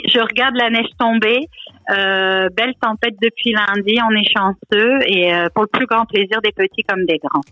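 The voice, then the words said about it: French speaker with slight Canadian accent. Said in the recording (French): “tu as quitté l'accent ch'ti pour avoir, les auditeurs l'entendent, un petit accent canadien ... pour les Français, il semblerait que j'ai un accent euh, canadien qui s'installe”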